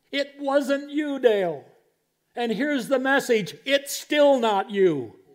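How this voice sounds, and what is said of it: Raised, loud preaching voice. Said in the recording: “I'm sorry to be raising my voice”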